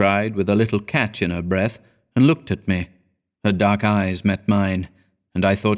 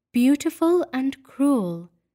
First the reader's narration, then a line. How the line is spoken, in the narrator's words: she repeated dreamily